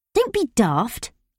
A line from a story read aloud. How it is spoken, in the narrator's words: I snapped